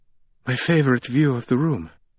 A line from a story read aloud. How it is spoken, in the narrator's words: Marta panted